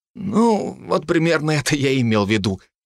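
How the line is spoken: Forced-out words. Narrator (Russian): выдавил Хиниган

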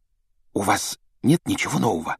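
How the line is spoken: Secretive whisper. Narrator (Russian): добавила она шепотом, чтобы не услышала мадам Помфри

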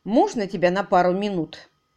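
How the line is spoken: Sharp and cold. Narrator (Russian): Голос Кэрри Десбора звучал резко и холодно

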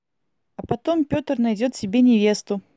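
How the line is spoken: Girl's exclamation. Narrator (Russian): воскликнула одна из девочек

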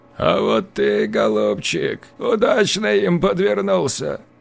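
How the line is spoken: Rasping, mocking disabled man. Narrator (Russian): С усмешкой в голосе прохрипел инвалид

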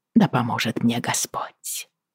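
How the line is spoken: Whisper. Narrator (Russian): прошептала я

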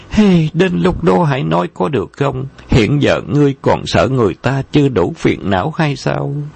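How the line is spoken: Sighing. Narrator (Vietnamese): Vân Ngọc Chân thở dài nói

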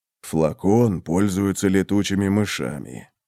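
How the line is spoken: Whisper. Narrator (Russian): прошептал Вал

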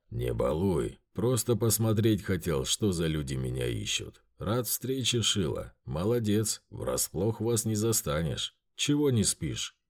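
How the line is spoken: Calm. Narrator (Russian): Спокойно проговорил хозяин трактира

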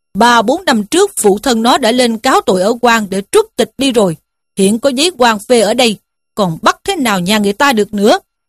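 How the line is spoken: Official's sharp shout. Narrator (Vietnamese): Quan huyện quát lên rằng

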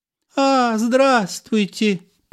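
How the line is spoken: Squeaky young woman. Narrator (Russian): пропищала инженю

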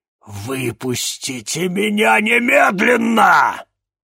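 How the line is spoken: Growling. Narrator (Russian): прорычал Алакабал

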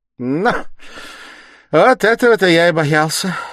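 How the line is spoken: Heated involuntary exclamation. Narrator (Russian): горячо и как бы невольно воскликнул Порфирий

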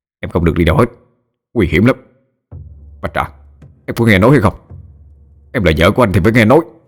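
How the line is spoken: Growling. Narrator (Vietnamese): Hạ Nguyên còn gầm ghè

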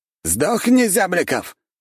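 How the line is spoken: Khan's shout. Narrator (Russian): выкрикнул хан

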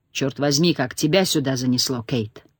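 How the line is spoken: Low-voiced question. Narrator (Russian): Абдулла спросил низким голосом

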